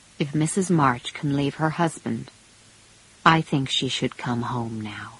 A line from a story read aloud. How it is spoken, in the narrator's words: said quietly